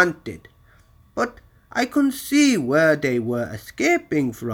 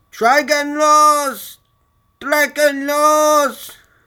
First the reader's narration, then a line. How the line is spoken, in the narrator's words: the crowd shouting and yelling